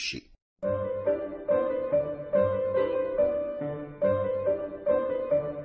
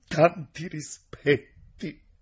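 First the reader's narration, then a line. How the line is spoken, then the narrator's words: Choked with sobs. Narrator (Italian): Quegli rispose con un singhiozzo nella gola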